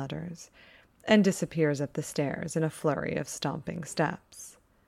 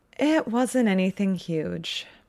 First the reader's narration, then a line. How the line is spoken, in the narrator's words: says, sighing